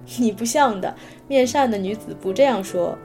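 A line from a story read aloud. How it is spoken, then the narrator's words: Laughing. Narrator (Chinese): 小白扑哧笑了，说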